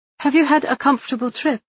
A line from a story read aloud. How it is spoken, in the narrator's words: She asked hastily